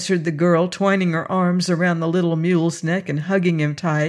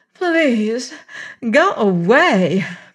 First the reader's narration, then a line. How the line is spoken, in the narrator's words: begged